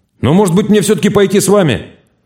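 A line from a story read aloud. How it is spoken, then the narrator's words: Sudden loud speech. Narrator (Russian): Румяный вдруг сказал громко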